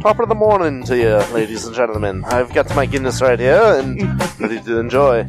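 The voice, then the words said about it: Unconvincing put-on Irish accent. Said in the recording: “That was not quite an Irish accent.”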